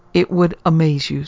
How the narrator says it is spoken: said the warrior

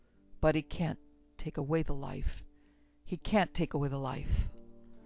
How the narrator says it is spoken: Strickland muttered

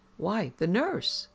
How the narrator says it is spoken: exclaimed

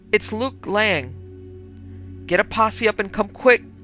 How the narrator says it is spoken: Luke shouted hoarsely over the wire

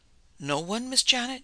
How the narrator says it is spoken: she gasped out

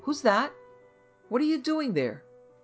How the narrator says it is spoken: Greatly astounded, called out

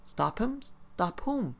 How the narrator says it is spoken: the laborer exclaimed

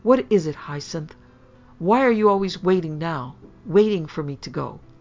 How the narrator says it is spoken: Stung out of her usual self-control, she cried out

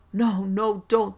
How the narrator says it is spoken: they begged wretchedly

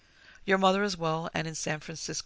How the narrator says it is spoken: his wife said

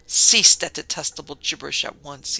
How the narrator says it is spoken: he snapped

